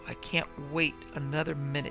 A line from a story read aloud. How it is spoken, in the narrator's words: she giggled